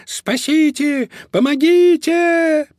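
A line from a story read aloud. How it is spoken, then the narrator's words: Piercing squeal. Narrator (Russian): пронзительно завизжал Помпончик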